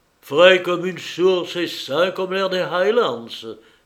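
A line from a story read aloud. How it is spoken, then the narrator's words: Insinuating voice. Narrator (French): dit Percy d'une voix insinuante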